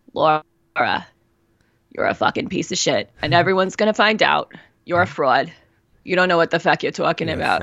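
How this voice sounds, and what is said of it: Bitchy alter-ego character voice. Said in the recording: “let me do an impression of my Bitchy Brenda ... I'm doing an impression of my Bitchy Brenda”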